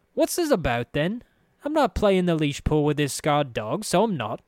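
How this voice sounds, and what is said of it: Thick curling brogue, sneering. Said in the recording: “that thick, curling brogue, the sharp sneer”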